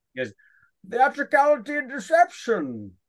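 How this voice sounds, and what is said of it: Movie villain impression. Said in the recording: “I'll do, because I got a good Bane, because I'm a pretty good impressionist.”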